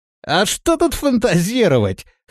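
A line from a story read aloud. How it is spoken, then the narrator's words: Scoffing grunt. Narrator (Russian): хмыкнул Рохля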